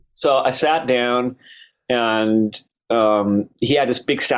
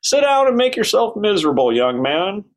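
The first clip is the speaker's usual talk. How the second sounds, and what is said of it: W.C. Fields meets Barrymore voice. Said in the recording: “W.C. Fields meets Barrymore accent”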